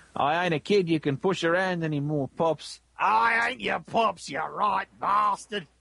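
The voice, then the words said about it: Put-on Australian accent. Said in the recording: “I do like reading some of this dialogue with an Australian accent”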